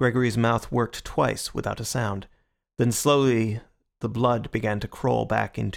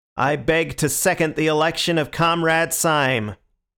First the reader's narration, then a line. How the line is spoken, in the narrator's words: the long, lean man with the American beard ... was repeating in a high American monotone